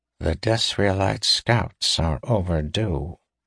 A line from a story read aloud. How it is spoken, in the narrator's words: Ithar said the words softly